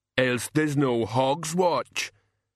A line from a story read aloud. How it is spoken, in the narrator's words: Banjo rumbled